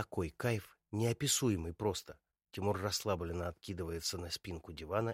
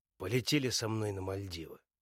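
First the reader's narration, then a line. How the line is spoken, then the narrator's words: Hoarse voice. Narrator (Russian): своим хриплым голосом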